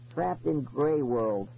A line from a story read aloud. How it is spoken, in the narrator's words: Eddie said bitterly